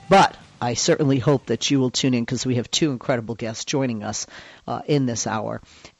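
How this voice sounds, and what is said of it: Quieter, sore-throated voice. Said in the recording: “I can't be as loud as normal. I have a bit of a sore throat.”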